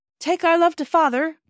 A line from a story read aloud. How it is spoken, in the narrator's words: cried Bobby